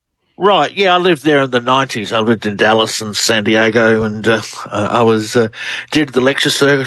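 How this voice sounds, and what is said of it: Australian accent. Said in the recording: “Australian researcher. Love the accent ... You do. You have a great one.”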